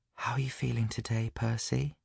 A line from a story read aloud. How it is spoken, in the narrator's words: she asked gently